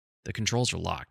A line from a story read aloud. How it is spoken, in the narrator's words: he said